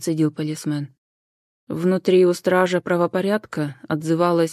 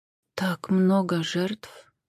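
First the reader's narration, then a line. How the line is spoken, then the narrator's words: Strained, forced out. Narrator (Russian): наконец выдавила Джен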